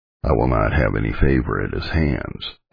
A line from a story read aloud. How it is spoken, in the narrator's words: he sullenly said